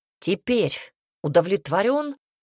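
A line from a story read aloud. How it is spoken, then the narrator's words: Growl. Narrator (Russian): прорычал он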